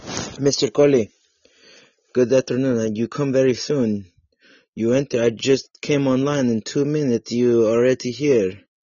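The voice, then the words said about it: Put-on Russian accent. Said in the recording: “talking like a Russian man today ... my accent ... of Russia ... I was trying to do an accent for you”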